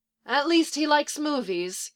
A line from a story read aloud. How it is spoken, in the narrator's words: Kendra said with a sigh